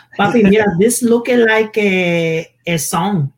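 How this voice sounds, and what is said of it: Imitates mother's accented speech. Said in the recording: “My mom has an accent too.”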